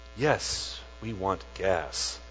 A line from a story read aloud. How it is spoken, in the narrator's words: said, his voice as smooth as salad oil